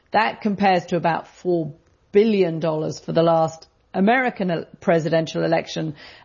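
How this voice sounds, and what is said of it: British accent. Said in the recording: “you may have guessed by my accent, I'm not from around here ... British context”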